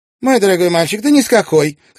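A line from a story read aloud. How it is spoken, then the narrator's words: Limp, bewildered exclamation. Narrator (Russian): как-то вяло и недоуменно воскликнула миссис Уоннап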